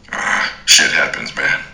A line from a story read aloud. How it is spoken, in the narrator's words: he grunted